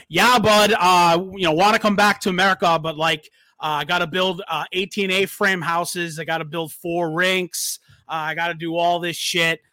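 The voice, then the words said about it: Mediocre put-on Canadian accent. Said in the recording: “That's not really, like, the best Canadian accent”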